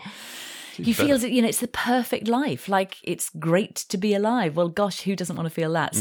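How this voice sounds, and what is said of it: Usual voice. Nothing is said of it.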